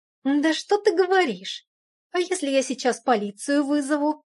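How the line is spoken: Hissing. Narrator (Russian): Шипела она

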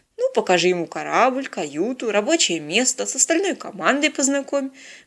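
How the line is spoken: Cheerful, captain. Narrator (Russian): бодро предложил капитан

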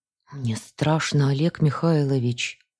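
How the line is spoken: Whisper. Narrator (Russian): прошептала я

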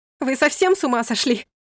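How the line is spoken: Shout. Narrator (Russian): крикнула

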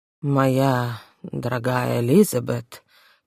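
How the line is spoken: Drawling. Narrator (Russian): протянул он

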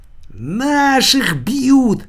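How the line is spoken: Shrieking man. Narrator (Russian): завизжал другой мужик

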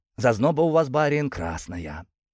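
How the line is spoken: Admiring breathy man. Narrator (Russian): выдохнул он восхищенно

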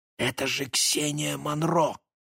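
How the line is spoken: Whisper. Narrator (Russian): прошептал Максим

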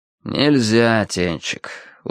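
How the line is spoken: Tired. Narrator (Russian): устало выговорил Виталя

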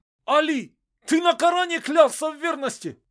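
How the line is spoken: Shouting for attention. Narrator (Russian): кричал Петр, пытаясь привлечь внимание хоть кого

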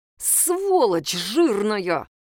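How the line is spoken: Angry hiss. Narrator (Russian): прошипел Илья Васильевич

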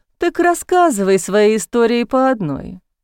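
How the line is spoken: Lazy, drowsy from heat. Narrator (Russian): лениво предложил Дэвид, разомлевший от тяжелого августовского зноя

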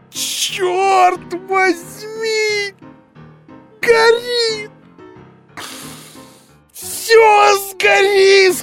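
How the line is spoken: Alarmed shouting. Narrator (Russian): кричал он, увидев пламя

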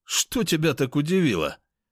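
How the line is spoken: Amused snort. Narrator (Russian): хмыкнул я

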